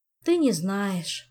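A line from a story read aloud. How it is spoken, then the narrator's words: Sighing. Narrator (Russian): снова вздохнул Мафей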